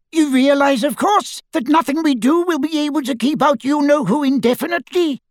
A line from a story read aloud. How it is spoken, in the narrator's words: squeaked Flitwick